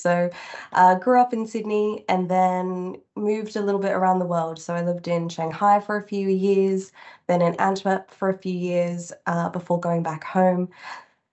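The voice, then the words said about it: Australian accent. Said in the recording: “I am Australian, if you can't already tell by the accent.”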